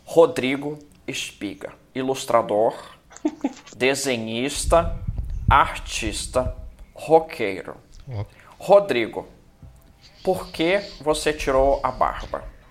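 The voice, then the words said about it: Imitates another person's voice. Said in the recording (Portuguese): “Eu tô agora arriscando aqui uma imitação de Marília Gabriela, eu devo ter uns 15% nessa imitação ... Nossa, pior que saiu bom, né? ... pior que ficou bom”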